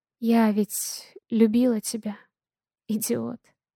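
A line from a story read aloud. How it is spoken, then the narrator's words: Tender whisper. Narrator (Russian): нежно шепчет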